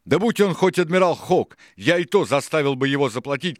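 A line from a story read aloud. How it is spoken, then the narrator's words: Shouting. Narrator (Russian): кричал Сильвер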